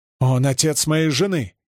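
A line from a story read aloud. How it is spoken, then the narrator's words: Younger man exclaiming. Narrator (Russian): воскликнул младший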